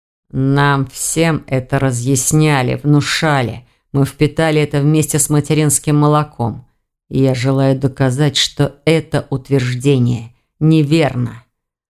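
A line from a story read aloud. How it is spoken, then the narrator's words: Man, through gritted teeth. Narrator (Russian): процедил сквозь зубы мужчина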